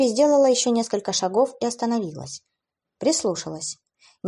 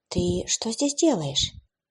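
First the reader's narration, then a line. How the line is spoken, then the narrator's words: Quiet, gentle question. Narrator (Russian): Эбби тихо задала вопрос, чтобы не напугать его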